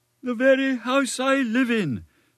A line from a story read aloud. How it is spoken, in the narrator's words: sighed the poor gentleman